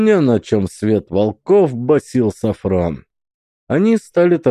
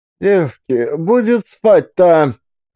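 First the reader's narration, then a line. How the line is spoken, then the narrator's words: Shouted. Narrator (Russian): крикнула Марья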